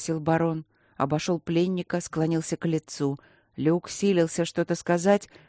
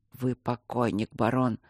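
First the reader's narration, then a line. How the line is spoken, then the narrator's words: Whisper. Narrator (Russian): прошептал Кембридж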